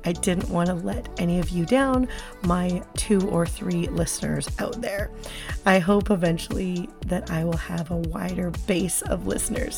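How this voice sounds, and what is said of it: Slightly scratchy, recovering voice. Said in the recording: “My voice has just not been back up to snuff... I really lost my voice for about a 2-week period where I barely could talk... you'll notice it's a little scratchy”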